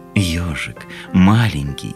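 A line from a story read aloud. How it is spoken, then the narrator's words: Tender. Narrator (Russian): ласково сказал Белый Медведь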